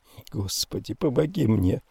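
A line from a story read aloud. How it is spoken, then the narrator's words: Whispered. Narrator (Russian): прошептала Констанция Раттиган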